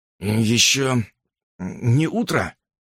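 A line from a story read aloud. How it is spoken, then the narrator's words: Sleepy question. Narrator (Russian): сонно спросил он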